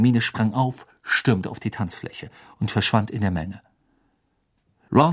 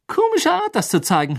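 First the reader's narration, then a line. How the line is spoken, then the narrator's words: Mocking. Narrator (German): höhnte Ron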